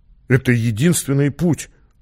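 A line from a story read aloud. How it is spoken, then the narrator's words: Bewildered. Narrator (Russian): растерянно сказал Леонид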